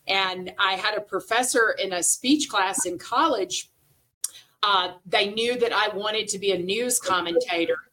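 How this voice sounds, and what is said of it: Slight Southern American accent. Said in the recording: “I have a bit of a Southern accent, even though I've lived all over, I never lost the Southern accent.”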